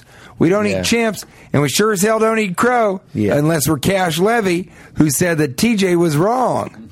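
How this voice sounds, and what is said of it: Put-on country western accent. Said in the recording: “country western accent”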